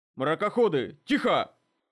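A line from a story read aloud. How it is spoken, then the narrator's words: Barked command. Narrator (Russian): рявкнул Дес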